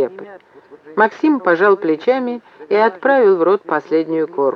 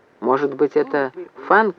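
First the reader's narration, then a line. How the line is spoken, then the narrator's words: Quiet question. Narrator (Russian): негромко спросил Вепрь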